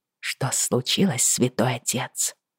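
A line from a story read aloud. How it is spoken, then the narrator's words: Whispered question. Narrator (Russian): шепотом спросила я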